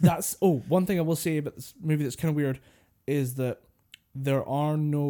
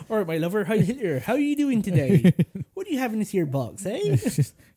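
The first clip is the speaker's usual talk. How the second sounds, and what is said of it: Put-on West Country accent. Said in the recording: “his West Country accent”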